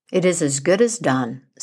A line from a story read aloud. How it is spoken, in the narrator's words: said Iron John